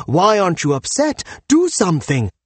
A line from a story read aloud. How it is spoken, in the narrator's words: This enrages the poet, who follows him and yells